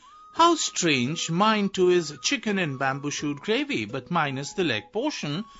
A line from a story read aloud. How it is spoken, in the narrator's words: exclaimed Kang Kun